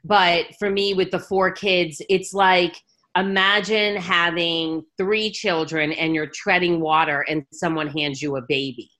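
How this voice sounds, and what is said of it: New York City accent. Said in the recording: “I was born and raised in New York City. That's where you get the big coffee accent.”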